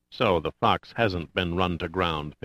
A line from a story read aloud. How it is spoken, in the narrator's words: Pitt said softly to himself